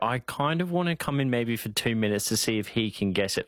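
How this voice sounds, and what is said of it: Broad Australian accent, bogan twang. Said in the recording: “From southeast Queensland. I grew up in a small town near Ipswich, so I've got a bit of a bogan twang to me”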